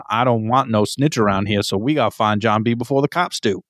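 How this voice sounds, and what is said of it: Put-on Cajun-style accent. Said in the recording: “I'm glad that you used his accent... He's either Cajun or a '90s Adam Sandler aficionado... I wasn't even really trying to do an accent... using that that accent”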